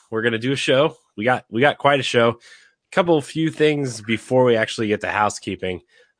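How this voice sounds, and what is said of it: Slightly raspy voice. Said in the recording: “my voice is a little raspy ... I've been sick all week.”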